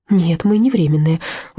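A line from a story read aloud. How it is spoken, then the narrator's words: Tired. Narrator (Russian): устало проговорила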